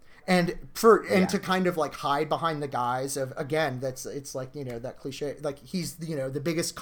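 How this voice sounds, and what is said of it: Usual voice. Nothing is said of it.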